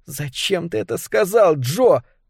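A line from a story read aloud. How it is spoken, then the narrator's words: Moaning. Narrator (Russian): простонала Триша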